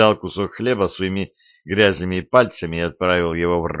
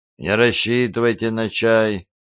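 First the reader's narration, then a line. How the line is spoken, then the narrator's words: Grumbling. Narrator (Russian): Худой незнакомец проворчал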